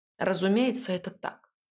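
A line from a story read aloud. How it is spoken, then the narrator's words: Cold, clipped. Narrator (Russian): холодно отчеканил Ив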